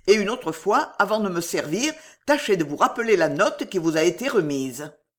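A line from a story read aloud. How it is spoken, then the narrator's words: Harsh tone. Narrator (French): dit-il d'un ton dur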